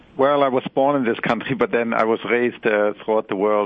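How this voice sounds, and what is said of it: Robust German accent. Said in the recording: “you have this marvelous accent ... this robust Germanic accent ... quite delightful”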